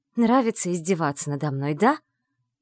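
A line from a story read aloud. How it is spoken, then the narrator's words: Angry hiss. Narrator (Russian): Злобно прошипела Вивиан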